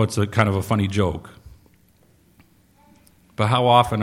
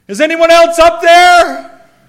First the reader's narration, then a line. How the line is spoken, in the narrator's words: he yelled